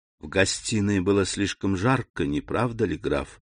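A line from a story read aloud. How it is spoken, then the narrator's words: Plain. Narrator (Russian): сказала она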